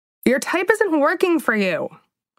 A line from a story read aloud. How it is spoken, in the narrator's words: shouted